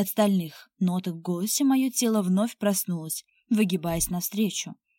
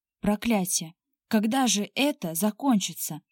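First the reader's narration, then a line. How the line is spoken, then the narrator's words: Exasperated whisper. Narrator (Russian): в сердцах прошептал мне Тимур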